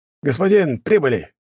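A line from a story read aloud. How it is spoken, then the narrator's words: Shout. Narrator (Russian): крикнул водитель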